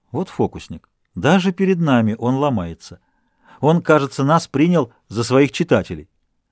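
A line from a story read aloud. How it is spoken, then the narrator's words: Laughing. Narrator (Russian): Сен-Потен засмеялся и сказал Дюруа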